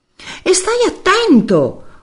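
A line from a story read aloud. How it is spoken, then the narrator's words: Yell. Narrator (Italian): urlò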